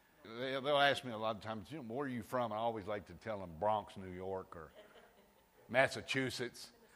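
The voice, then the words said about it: Slight Southern American twang. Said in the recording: “I guess I have a southern accent a little bit ... I do have a little southern twang.”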